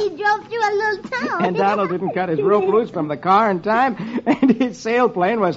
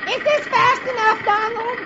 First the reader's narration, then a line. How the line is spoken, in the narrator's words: And without looking back, she shouts